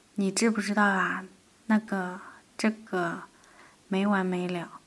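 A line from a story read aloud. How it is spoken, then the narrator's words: Low, hushed voice. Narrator (Chinese): 压低嗓子的声音在黑暗中蠕动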